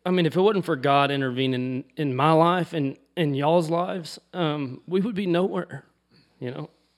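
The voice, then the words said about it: Choked-up, emotional voice. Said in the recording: “it still chokes me up, man ... Sorry, I'm going to lose my voice.”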